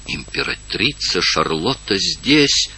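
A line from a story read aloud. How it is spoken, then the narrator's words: Distant whisper. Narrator (Russian): В соседнем зале послышался шепот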